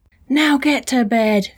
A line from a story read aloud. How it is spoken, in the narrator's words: screamed